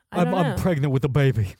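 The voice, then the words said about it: Imitates another person's voice. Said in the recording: “my main Schwarzenegger impression”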